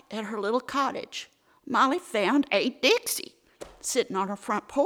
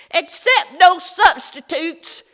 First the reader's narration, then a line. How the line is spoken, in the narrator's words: hollered blissfully